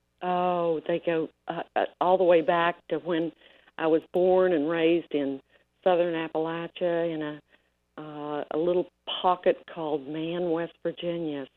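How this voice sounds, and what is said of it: Appalachian mountain twang accent. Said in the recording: “you've got a little bit of an accent going on there ... I'm a mountain girl, so I got that mountain twang”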